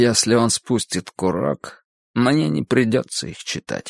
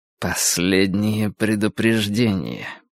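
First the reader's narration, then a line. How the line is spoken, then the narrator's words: Said through gritted teeth. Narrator (Russian): процедил Морри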